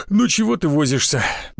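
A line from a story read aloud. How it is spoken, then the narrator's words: Displeased mutter under breath. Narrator (Russian): недовольно пробурчал он под нос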